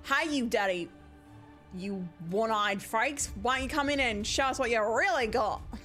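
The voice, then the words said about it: Put-on character accent, mock enraged. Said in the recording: “where's my accent? Oh, okay, we got it. You got it now. ... Is that what an enraged character sounds like? ... You keep going really eloquent when you're raging.”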